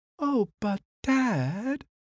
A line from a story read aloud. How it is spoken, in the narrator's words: moaned Little Bear